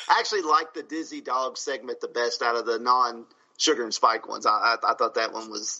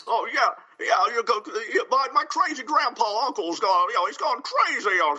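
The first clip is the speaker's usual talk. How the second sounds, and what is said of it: Exaggerated imitation of an actor's voice. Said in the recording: “he kind of sounded like Jimmy Stewart ... it's like this really extreme Jimmy Stewart impersonation ... you did the Jimmy Stewart voice”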